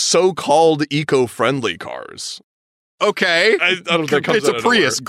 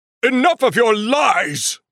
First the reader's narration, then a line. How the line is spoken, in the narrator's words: Dumbledore exclaims